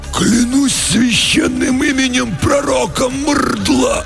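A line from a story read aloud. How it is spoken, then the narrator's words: Two choked hoarse voices, unison. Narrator (Russian): В унисон просипели оба десантника перехваченными горлами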